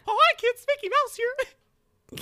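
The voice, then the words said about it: Mickey Mouse cartoon voice. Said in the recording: “my Mickey Mouse impression”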